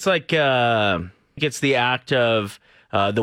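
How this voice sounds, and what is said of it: Usual voice. Nothing is said of it.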